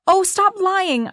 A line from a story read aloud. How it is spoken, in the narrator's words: suddenly shouted